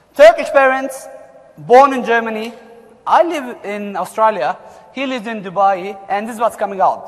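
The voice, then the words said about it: German-accented English. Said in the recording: “probably you notice our accent ... don't expect us to fix our accent ... you will all understand Germanish”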